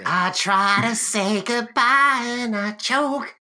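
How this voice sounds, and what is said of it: Sung impression of another singer. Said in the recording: “I do a killer Macy Gray impression”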